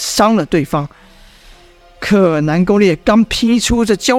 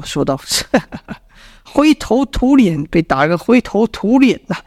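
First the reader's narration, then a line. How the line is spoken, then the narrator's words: Mocking laughter. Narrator (Chinese): 一阵讪笑，是李密还公孙丑笑道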